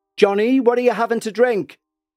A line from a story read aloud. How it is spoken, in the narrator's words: called out